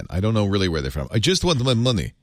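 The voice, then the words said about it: Put-on generic Slavic accent. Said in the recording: “I'm going to add the accent ... generic Slavic ... generic Slavic accent”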